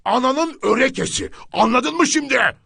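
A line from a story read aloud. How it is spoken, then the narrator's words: Shouting. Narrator (Turkish): diye bağırdı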